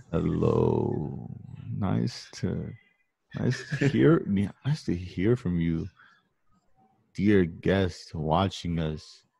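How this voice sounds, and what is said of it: Deep put-on sexy voice. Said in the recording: “your mic makes your voice sound hella deep ... that's me doing it right now. It's me putting on my sexy voice.”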